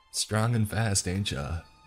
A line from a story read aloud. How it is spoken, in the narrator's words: she chuckled